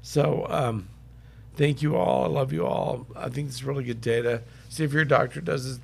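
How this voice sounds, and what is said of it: Hoarse, sick-sounding voice. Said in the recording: “Sorry I'm so sick and hoarse... I know my voice is bad enough when I'm not sick”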